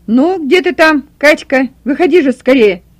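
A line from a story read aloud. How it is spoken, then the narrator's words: Impatient shouting. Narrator (Russian): кричал от нетерпения Николай Васильевич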